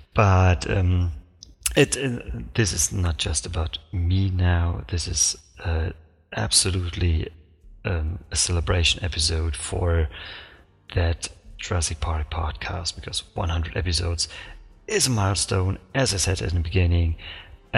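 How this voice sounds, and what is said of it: Speaks English with an accent. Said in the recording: “excuse for my accent, because, well, you guessed it”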